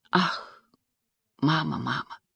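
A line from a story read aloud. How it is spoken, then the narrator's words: Sigh. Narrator (Russian): вздохнула Тесс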